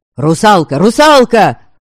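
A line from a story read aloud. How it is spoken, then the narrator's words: Sudden crowd yelling. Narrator (Russian): Вдруг завопили десятки голосов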